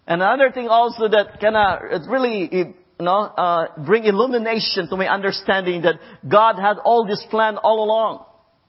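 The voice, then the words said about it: Noticeable foreign accent. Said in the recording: “I guess you have no problem of understanding my accent ... hey, you sounded like Jackie Chan ... sounding like a Jackie Chan ... if you have an accent”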